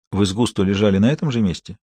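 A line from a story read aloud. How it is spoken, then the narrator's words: Quiet question. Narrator (Russian): тихо спросил Харри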